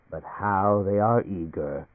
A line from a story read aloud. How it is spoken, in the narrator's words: he chuckled